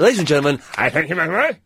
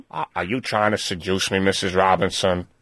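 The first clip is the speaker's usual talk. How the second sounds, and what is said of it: Imitates another person's voice. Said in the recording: “That wasn't a bad Dustin Hoffman impression either.”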